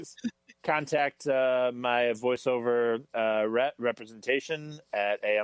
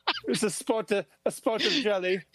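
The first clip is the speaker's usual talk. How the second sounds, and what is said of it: Put-on British accent. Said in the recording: “That's my British impression. ... I do a lot of British accents.”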